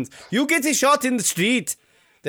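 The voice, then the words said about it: Attempted put-on Dutch accent. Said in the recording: “I can't do a Dutch accent. I don't know how they sound. ... That's not bad.”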